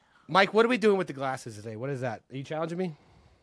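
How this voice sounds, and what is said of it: Voice sounds off, unwell. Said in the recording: “my voice sounds weird, I don't know if it's ever gonna be the same ... I've been under the weather”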